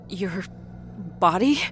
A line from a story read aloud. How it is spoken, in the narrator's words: Rita whimpered